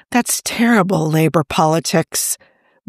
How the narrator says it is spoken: Bruce whispered back

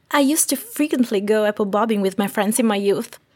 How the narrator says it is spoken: Hermione exclaimed

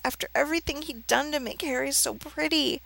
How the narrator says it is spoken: croaked

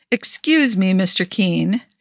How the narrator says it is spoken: she said, her voice dripping with disdain

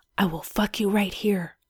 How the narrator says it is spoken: Sam sighs, says, whispered and gritted

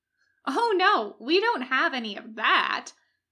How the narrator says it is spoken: Caboose says cheerfully

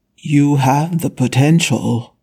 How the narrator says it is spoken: Fu Yuo rumbled, voice deeper than before

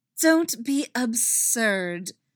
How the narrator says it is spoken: Hera says, making sure that her voice drips with condescension

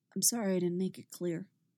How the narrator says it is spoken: he mutters into Mick's neck

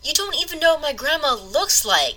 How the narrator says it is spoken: yelled

